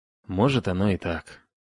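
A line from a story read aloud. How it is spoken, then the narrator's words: Glum agreement. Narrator (Russian): уныло согласился Бран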